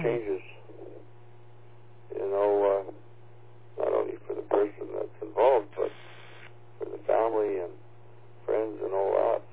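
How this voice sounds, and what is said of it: Slightly hoarse voice. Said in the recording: “my voice is a little bit hoarse here this morning”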